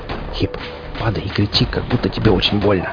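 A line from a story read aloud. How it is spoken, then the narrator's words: Whispered. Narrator (Russian): прошептал я в паузе между выстрелами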